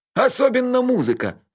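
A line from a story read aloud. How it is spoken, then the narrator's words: Bursting into laughter. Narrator (Russian): расхохотался Мелифара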